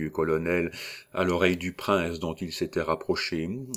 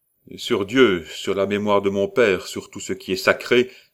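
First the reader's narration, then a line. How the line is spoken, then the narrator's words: Outraged exclamation. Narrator (French): s'écria en ce moment Paul Labre, révolté contre le mensonge qui l'écrasait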